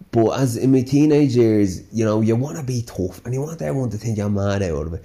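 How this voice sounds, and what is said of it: Slight Dublin Irish accent. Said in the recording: “I've a bit of a Dublin twang ... I grew up with this bit of a Dublin accent”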